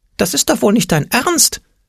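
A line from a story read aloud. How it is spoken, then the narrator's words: Shrieking into ear. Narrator (German): kreischte der Angstpeter in sein Ohr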